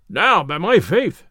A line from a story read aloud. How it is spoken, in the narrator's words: cried Little John